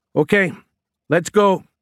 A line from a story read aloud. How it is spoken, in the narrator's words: Prince yelled over the chorus of different engines